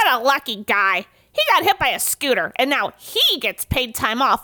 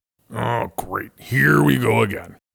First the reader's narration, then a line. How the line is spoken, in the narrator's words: grumbles Fred